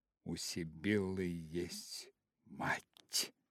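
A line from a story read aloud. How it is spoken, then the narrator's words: Whisper. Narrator (Russian): прошептала она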